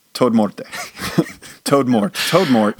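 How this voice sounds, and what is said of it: Put-on Spanish accent. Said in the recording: “with a Spanish accent?”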